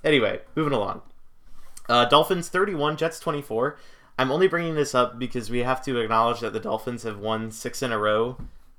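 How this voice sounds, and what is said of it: Hoarse, strained voice. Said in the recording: “I also fucking screamed myself hoarse at several points during the game, so that's why my voice sounds a little gimpy”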